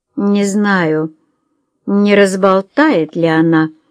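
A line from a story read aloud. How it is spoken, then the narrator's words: Drawling, musing aloud. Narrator (Russian): протянула миссис Френч, словно рассуждая вслух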